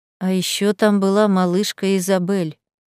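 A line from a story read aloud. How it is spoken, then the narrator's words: Very quiet, necromancer. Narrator (Russian): очень тихо сказал некромант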